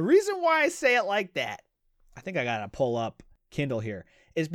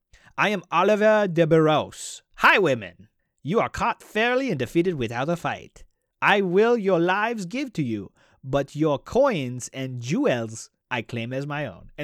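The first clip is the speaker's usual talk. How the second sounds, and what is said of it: Funky thick put-on foreign accent. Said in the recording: “I'm saying it all funky because it was spoken with a thick accent ... he's got a weird accent”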